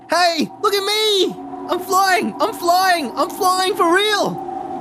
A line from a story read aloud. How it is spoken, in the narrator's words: he shouted